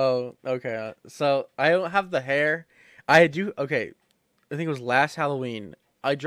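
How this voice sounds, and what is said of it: Usual voice. Nothing is said of it.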